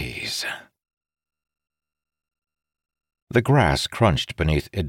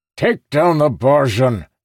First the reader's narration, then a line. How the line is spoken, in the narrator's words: he shouted